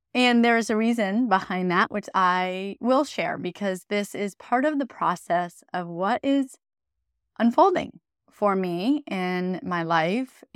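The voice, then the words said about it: Slightly scratchy, hoarse voice. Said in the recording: “My voice is still a little scratchy.”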